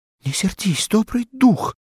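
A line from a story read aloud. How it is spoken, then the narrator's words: Pleading. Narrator (Russian): взмолилась она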